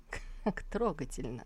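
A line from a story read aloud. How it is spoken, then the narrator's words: Mumble. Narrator (Russian): пробормотал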